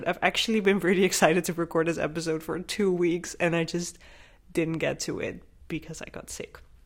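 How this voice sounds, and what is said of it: Slightly raspy, hoarse voice. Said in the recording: “Still a bit of a raspy throat, so I'm sorry if that comes up as well during this podcast”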